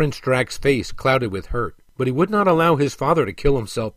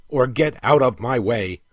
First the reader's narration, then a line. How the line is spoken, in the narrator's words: snapped the king